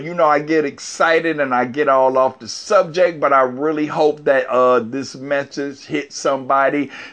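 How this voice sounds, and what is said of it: Hoarse, worn-out voice. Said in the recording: “I done lost my voice.”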